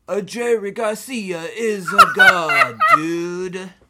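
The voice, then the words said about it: Put-on Italian accent. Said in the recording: “You have to say it in an Italian accent now. Sorry, because they're in Italy.”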